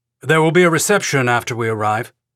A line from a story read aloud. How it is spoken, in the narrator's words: Overstreet said